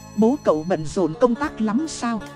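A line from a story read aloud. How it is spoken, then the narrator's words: Soft amused question. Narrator (Vietnamese): khẽ cười hỏi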